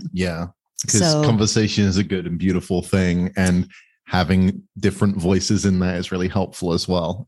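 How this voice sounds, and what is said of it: English accent. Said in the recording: “everybody always loves your accent ... I'm going back to England in a week, and it will become way stronger again ... my English ... a bit more English than this one”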